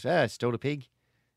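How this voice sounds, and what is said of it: Poor put-on Australian accent. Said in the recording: “That's not a great Australian accent.”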